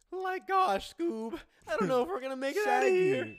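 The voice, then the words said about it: Imitates a cartoon character voice. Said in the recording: “You impersonate everybody... That was a good one.”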